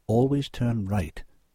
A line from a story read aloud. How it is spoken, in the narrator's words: she murmured in his ear